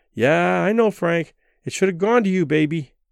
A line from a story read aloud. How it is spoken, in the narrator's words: Barbara, who must have heard this lament 1,000 times, said soothingly